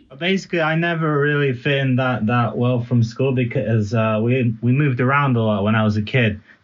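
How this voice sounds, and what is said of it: Mixed accent, partly American. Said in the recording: “we lived in America, we lived in Italy, and I learned English in America. That's why my accent's a little bit all over the place.”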